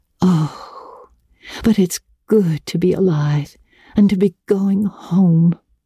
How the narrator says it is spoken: breathed Anne

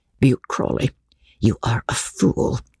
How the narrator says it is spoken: said his wife scornfully

